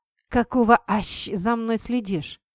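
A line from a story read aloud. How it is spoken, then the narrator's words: Hiss. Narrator (Russian): прошипел он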